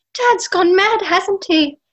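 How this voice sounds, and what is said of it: Put-on British accent. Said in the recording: “That was my really good British accent. ... No, you did a great job.”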